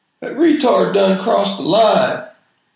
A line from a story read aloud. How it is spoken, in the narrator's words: somebody in the back yelled